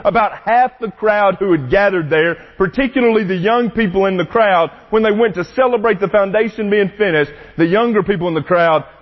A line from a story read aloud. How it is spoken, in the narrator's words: they shouted joyfully